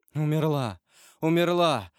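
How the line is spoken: Anguished moaning. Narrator (Russian): стонал Вильфор в пароксизме душевной муки, тем более раздирающей, что она была неизведанной, новой, неслыханной для этого стального сердца

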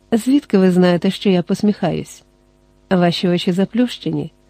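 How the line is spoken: Tender, affectionate. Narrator (Ukrainian): сказала ніжно, відчуваючи бажання пригорнутись до нього

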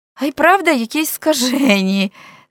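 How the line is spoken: Laughing. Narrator (Ukrainian): засміявся і собі Френк

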